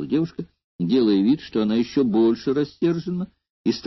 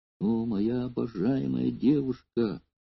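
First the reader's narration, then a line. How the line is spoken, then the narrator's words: Humble, tearful. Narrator (Russian): смиренно произнес Эномай, и в его голосе чувствовались слезы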